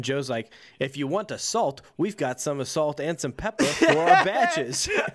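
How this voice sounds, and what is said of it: Put-on Italian accent, not convincing. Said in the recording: “just got super Italian in this moment ... that's not an Italian accent”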